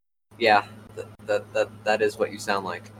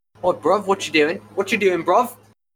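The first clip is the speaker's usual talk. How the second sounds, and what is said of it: Put-on British street accent. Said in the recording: “do your best impression of a British person ... I feel like you're about to shank me.”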